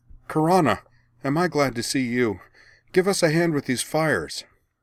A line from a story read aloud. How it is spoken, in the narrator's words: Anne cried